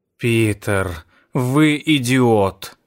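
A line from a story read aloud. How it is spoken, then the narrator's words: Sigh. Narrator (Russian): вздохнула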